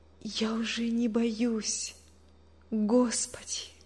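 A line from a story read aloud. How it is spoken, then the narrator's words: Whisper. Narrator (Russian): прошептала она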